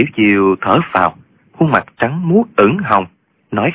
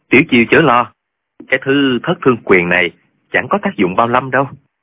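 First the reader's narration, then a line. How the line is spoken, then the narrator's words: Smiling, feigning unawareness. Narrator (Vietnamese): Trương Vô Kỵ làm như không hay biết, mỉm cười nói với Tiểu Chiêu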